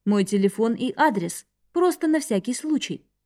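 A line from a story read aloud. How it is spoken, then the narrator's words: Plain. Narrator (Russian): сказал он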